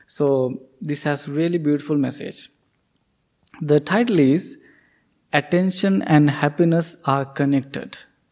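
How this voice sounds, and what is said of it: Non-native English accent. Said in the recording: “Because of my pronunciation, maybe my accent is different, you might not understand clearly”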